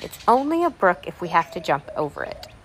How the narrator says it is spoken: quietly drew it in and said

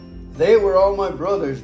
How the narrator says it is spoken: Gideon exclaimed

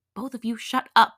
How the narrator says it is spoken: Jin hissed

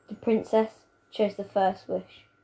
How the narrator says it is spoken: she says quietly

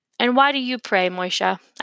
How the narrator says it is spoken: I asked him

